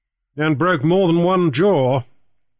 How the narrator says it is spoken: he asserted grimly

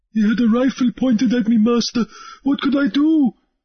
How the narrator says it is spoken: Harelip whimpered

